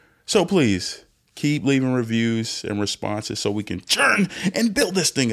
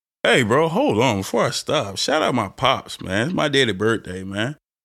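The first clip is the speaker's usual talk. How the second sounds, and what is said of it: Slips into a put-on accent. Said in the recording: “I don't know why I'm bringing out this accent.”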